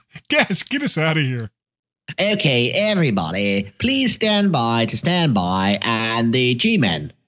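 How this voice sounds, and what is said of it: Very silly put-on accent. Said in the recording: “speaking to you in this very, very silly accent”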